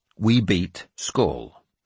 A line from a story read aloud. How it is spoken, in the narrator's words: I said firmly